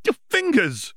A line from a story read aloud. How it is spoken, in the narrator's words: Hermione cried out